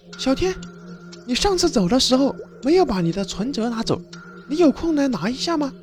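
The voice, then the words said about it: Feigned pitiful, pleading voice. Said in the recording (Chinese): “装作可怜的声音说道”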